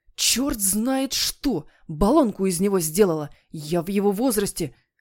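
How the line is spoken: Genuine despairing groan. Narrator (Russian): понял, что дело оборачивается совсем плохо, и застонал уже по-настоящему

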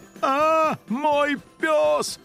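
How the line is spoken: Wailing yell. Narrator (Russian): завопил хозяин

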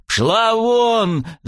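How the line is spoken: Angry yell. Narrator (Russian): заорал я на незнакомку

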